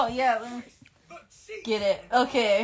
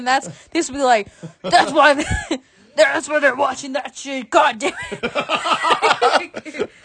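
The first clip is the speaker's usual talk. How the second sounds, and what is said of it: Imitates another person's voice. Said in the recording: “I was doing a Vince impression.”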